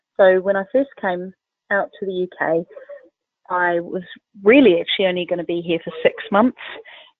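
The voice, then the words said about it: New Zealand accent. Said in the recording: “There's a slight accent there in your voice ... I think it's more than slight ... you're really holding on to that Southern Hemisphere accent ... I'm originally from New Zealand”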